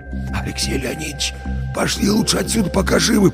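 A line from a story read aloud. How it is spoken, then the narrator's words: Whisper. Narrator (Russian): прошептал Вася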